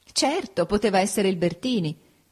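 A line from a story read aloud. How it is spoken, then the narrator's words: Laughing. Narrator (Italian): disse Ada ridendo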